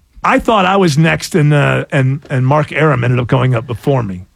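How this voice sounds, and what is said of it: Imitates another person's voice. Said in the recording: “my Jamie Bendel impression”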